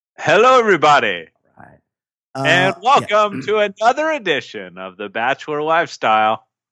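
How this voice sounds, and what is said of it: Deeper than usual, congested voice. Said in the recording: “I'm recovering from a cold. I'm in that in that late stages of just like loose phlegm, but my voice is a little deeper than usual”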